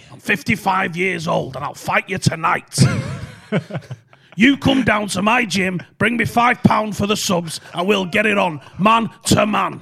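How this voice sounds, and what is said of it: Peter Fury impression, distinctive accent. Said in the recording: “It's the craziest accent that I could ever find ... Peter Fury's the best, though ... That's exactly how it sounds.”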